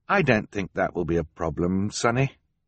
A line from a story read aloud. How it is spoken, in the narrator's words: she said